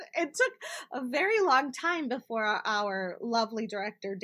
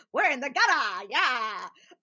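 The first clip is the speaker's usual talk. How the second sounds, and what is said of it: 1920s newsboy detective accent. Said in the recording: “this amazing 1920s spy accent comes out ... newsboy, like, you know, detective voice”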